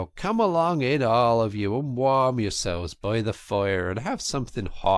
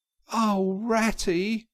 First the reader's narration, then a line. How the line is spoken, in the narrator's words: he cried in despair, with tears impending